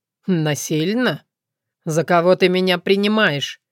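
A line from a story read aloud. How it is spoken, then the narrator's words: Mocking reply. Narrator (Russian): Насмешливо отозвался Соколовский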